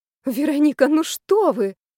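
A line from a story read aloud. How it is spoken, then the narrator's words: Exclaimed. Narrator (Russian): воскликнула Римма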